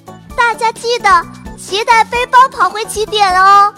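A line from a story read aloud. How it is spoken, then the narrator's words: Shouting. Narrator (Chinese): 糖糖见机大喊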